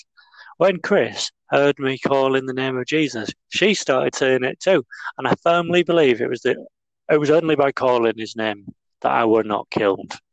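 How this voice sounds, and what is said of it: Put-on regional accent. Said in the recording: “that was a wonderful accent ... it was an amusing accent”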